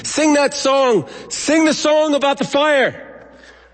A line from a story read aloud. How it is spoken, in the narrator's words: Isaac would shout to the children